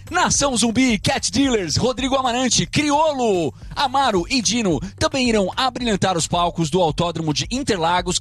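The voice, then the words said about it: Announcer-style radio voice. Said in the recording (Portuguese): “com voz de locutor”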